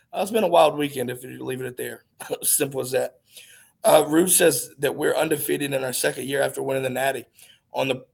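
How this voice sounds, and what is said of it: Hoarse, fading voice. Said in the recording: “if you can't hear him, I'm losing my voice a little bit”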